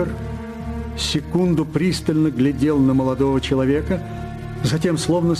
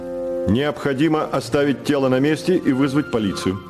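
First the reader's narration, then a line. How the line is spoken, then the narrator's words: Plain. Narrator (Russian): сказал он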